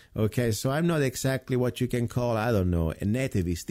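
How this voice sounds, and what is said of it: Non-native English accent. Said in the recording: “I am not exactly a native, okay? My accent can prove that.”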